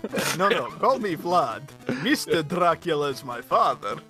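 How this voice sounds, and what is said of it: Dracula vampire accent. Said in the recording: “you doing a Dracula accent right now. I won't say a country. I won't declare a nationality for it. It's a Dracula accent.”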